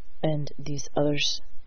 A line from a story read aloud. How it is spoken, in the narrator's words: asked in a level voice